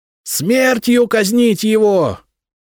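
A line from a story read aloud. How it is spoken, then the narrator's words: Frantic shriek, young man. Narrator (Russian): истошно завизжал парень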